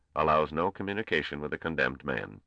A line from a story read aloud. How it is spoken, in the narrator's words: said the Grand Master coldly